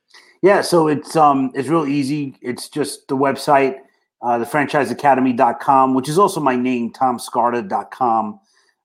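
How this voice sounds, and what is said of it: Boston accent. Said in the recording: “it's actually one of my favorite accents. Like, I just want to hear him say quota all the time ... your Boston accent”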